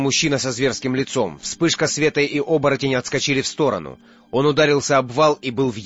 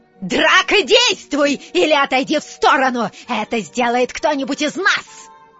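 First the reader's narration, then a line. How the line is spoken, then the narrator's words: Woman shrieking. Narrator (Russian): Провизжала женщина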